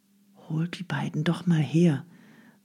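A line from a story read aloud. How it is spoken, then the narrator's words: Quiet request. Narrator (German): bat er Nadja leise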